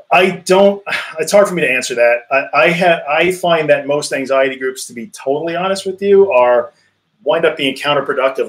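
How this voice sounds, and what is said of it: American accent. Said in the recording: “as you can tell by my awesome American accent.”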